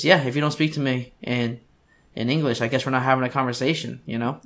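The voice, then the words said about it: Weak half-attempt Southern accent. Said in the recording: “was that a half, like, southern accent that you did with that? ... It was really bad, though. ... it wasn't a full attempt. ... Try to go Bill Burr there.”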